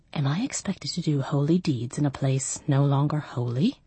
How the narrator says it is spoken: In a whisper, asked

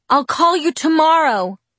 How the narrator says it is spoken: I yelled

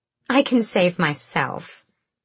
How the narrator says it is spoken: Marion said brightly

